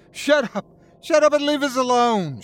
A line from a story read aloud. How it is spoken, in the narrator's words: she screamed